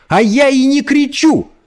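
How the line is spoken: Angry shout. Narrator (Russian): закричала Эльса, выходя из себя

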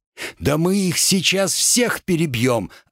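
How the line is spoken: Joyful shout. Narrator (Russian): радостно выкрикнул Макс

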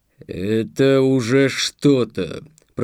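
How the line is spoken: Low booming drone. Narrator (Russian): прогудел он

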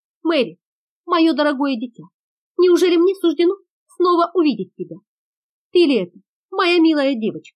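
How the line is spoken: Astonished joyful exclamation. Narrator (Russian): Майор не веря своим глазам, вне себя от изумления и радости воскликнул

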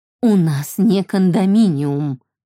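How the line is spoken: Sighing. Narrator (Russian): вздохнула мама

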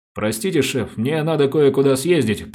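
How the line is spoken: Muttered. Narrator (Russian): пробормотал Самсонов

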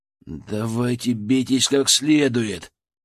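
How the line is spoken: Wry grumble. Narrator (Russian): Криво ухмыльнувшись, проворчал я

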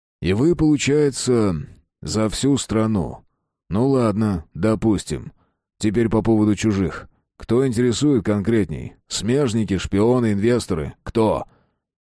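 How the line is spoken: Calm question. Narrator (Russian): Матвеев спокойно уточнил

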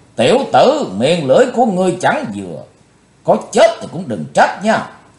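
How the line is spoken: Roaring. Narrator (Vietnamese): Bạch Phát Ma Cơ gầm thét

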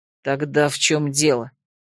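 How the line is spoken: Angry growl. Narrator (Russian): Начиная всерьез сердиться, рыкнула я

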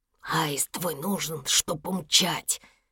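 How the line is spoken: Whisper. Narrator (Russian): Еся перешел на шепот

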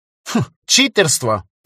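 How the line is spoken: Snorting, dismissive. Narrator (Russian): фыркнул Федор

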